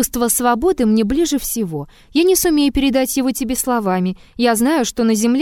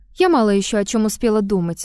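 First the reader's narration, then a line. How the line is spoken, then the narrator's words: Calm objection. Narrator (Russian): спокойно возразила Елисавета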